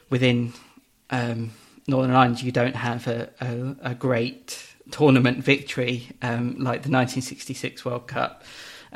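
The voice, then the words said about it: Very English accent. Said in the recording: “I uh, was born in England and speak with a very English accent”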